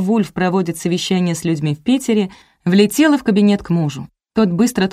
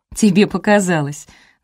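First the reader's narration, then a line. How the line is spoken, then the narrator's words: Laughing. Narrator (Russian): засмеялся Вульф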